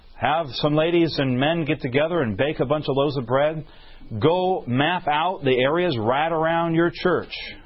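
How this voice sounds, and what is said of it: Southern Alabama accent. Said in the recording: “It sounded like I was from Alabama when I said it ... I am from Alabama ... When I get rushed at times, my accent starts coming out”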